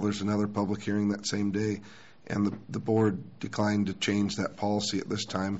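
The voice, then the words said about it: Slightly raspy voice. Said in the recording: “Please excuse my voice. I'm a little raspy this morning.”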